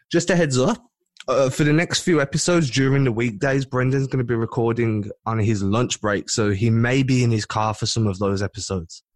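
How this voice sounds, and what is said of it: UK accent. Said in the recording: “You'll still get my call accent in crystal clear ... you are the UK”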